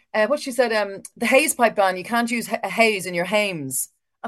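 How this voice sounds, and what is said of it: Imitated Holly Cairns accent. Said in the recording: “do you know this stupid accent? ... I think it's the Holly Cairns accent.”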